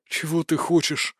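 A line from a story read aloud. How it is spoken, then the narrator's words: Doomed exhale. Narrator (Russian): обреченно выдохнул жнец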